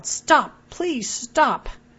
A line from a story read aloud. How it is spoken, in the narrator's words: yelled